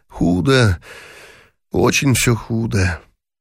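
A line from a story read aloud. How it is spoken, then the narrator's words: Sighing speech. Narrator (Russian): вздохнул и сказал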